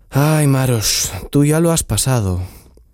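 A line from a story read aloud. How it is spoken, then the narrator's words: Sighing. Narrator (Spanish): suspiró Tsiprich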